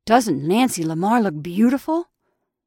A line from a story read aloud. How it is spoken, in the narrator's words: exclaimed Clark breathlessly